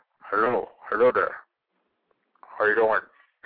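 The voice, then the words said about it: Tiger impression, sounds like a cold. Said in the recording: “You got a cold there, Tiger?”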